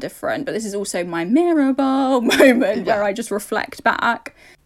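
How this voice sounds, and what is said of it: Creaky vocal fry voice. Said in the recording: “this beautiful kind of vocal fry that you're hearing now”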